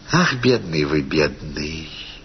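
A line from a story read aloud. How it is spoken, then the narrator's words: Simple and gentle. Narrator (Russian): сказала она просто и ласково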